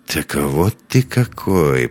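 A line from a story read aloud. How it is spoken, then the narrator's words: Mutter. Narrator (Russian): пробормотал Лекс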